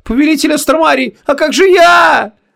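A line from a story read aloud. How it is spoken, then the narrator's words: Hysterical yell. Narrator (Russian): завопила вслед наголо, истерично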